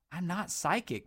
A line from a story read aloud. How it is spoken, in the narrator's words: muttered Dodd wearily